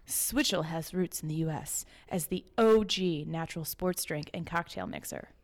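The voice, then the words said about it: Mock broadcaster announcer voice. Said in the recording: “in my best broadcasting voice.”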